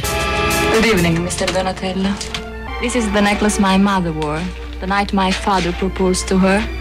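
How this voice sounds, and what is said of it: Woman speaking with a foreign accent. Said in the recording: “Love the accent. Beautiful.”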